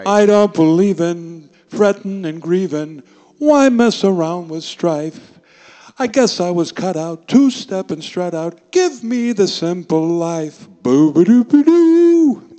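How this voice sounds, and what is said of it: Imitates another person's singing voice. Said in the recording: “my Mel Torme impression”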